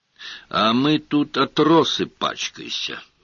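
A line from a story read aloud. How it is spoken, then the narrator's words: Grumbling. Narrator (Russian): ворчание Певеры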